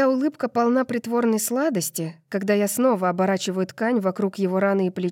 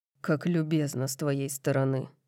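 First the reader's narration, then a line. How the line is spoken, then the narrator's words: Dry. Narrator (Russian): Сухо произносит он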